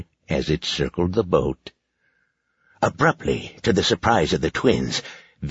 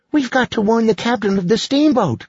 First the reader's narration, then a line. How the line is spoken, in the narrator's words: cried Lacey